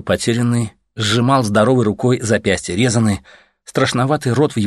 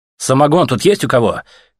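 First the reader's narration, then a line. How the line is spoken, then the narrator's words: Ragged shout. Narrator (Russian): крикнул Артем драным джунглем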